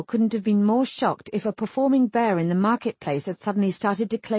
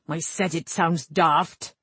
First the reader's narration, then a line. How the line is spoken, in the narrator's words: Cullen snapped